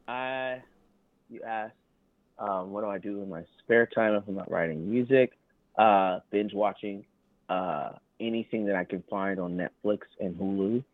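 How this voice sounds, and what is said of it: Southern US accent. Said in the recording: “I'm getting an accent from you ... I thought I was hiding my accent ... I'm from the South. I'm from Thomasville, Georgia ... So I'm a Southern boy”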